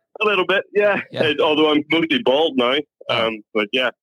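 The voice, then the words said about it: Irish accent. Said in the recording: “Not quite the right accent. ... From Ireland.”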